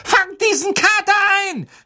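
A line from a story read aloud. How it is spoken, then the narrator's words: Shouting. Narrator (German): schrie Ron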